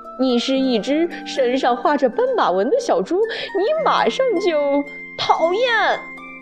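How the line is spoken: Laughing. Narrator (Chinese): 大象大笑着说

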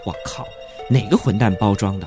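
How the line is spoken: Inner muttering. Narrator (Chinese): 阿虎心里嘀咕了一声

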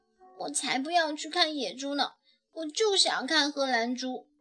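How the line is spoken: Quiet grumbling. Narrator (Chinese): 乐雅 小声嘟囔说

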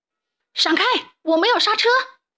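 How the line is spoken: Distant shout. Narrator (Chinese): 从远处传来了一声大喊

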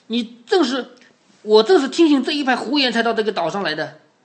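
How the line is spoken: Furious, stamping. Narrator (Chinese): 那个人怒气冲冲的动着脚，就跺着脚说

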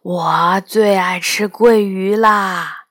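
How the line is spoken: Monster muttering. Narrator (Chinese): 怪兽霸下在我旁边嘀咕

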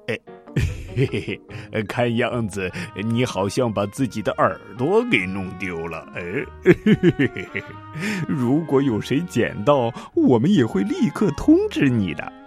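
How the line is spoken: Mocking, sly. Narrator (Chinese): 一脸坏笑的对没有耳朵的兔子说

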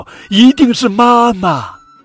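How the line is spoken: Excited loud shout. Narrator (Chinese): 小雷龙一阵激动，大声喊道

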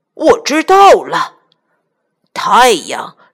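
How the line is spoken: Excited shout. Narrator (Chinese): 老鼠村长跳起来，大叫

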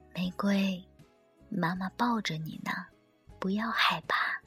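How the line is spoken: Soft, quiet. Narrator (Chinese): 阿姨小声说

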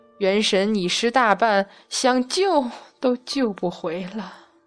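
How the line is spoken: Sighing. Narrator (Chinese): 太乙真人叹息

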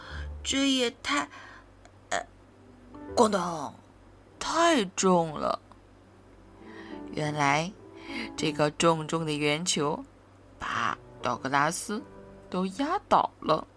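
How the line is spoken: Muttering. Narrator (Chinese): 他咕哝道

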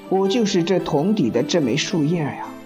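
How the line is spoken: Sighing young man. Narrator (Chinese): 年轻人叹口气，说

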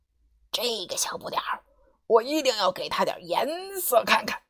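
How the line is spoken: Low grumbling. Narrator (Chinese): 阿里低声埋怨道

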